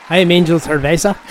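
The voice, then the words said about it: Put-on accent, convincingly done. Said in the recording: “You have a good accent, man. ... That was good. ... That was spot on.”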